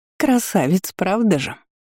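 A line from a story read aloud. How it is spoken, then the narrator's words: Mocking hiss with nasty giggle. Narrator (Russian): Явно издеваясь, прошипела Диона, мерзко хихикнув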